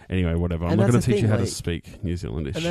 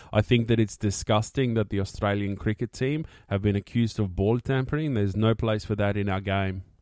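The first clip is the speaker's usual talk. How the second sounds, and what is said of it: Put-on South African accent. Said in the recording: “my favourite of yours is your South African accent ... That's amazing. Like, that's actually amazing.”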